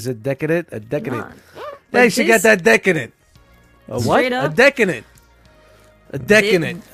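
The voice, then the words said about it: Exaggerated Brooklyn accent. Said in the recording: “It's the Brooklyn. It's the Brooklyn accent.”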